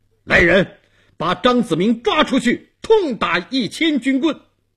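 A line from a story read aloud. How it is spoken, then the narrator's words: Stern shout. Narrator (Chinese): 东王厉声喊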